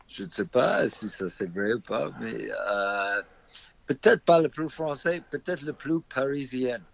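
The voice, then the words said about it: Slight American accent in French. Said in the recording (French): “on entend ton petit accent. ... le plus français des Américains”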